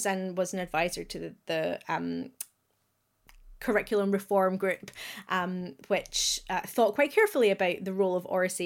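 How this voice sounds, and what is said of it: Scottish accent. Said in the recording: “listeners will hear from my accent I am Scottish”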